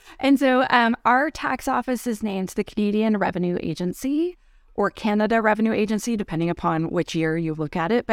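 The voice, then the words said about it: Canadian accent. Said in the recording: “I live in Canada. That's the accent you're hearing. At some point, I will say aboot”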